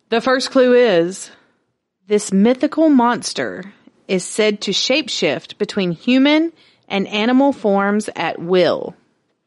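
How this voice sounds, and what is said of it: Game show host voice. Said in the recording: “do the game show voice.”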